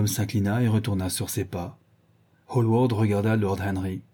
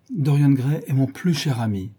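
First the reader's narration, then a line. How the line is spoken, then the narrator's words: Plain. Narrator (French): dit-il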